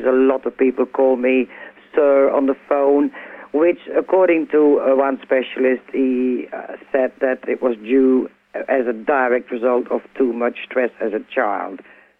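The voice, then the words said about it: Belgian accent, very deep voice. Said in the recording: “I'm actually born in Belgium. I've now lived in the UK for 25 years. That sort of explains my accent. And also, I've got a pretty deep voice.”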